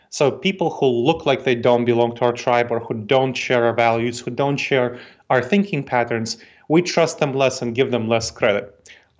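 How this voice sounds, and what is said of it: Eastern European Moldovan accent. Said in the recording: “you can probably hear that I'm not from around here. I obviously have an accent... My parents came from this small country in Eastern Europe called Moldova... I still have an accent from when I left when I was 10 years old”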